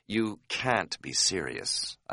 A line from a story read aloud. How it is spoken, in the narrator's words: I said quietly